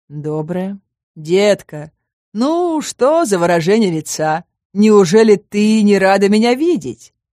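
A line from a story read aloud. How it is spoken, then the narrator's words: Mocking drawl. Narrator (Russian): издевательски протянул он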